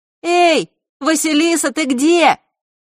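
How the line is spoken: Sudden shout nearby. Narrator (Russian): крикнула вдруг Диана где-то совсем рядом

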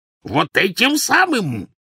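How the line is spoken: Furious shriek. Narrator (Russian): взвизгнул дядя, и на лбу его запульсировала вена

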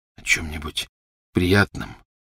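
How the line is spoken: Hoarse repetition. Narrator (Russian): хрипло повторил он

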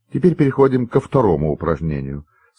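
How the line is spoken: Plain. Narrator (Russian): сказала Елизавета Николаевна

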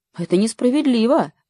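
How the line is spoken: Exclamation. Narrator (Russian): воскликнула Лина

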